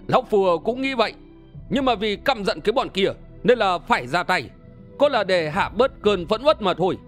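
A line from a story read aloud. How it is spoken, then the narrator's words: Hearty laughter. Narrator (Vietnamese): Đơn Minh bật cười ha ha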